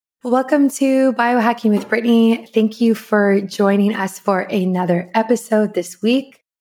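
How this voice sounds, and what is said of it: Nasal, congested voice. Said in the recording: “I am still getting over being sick, so I sound a little nasally”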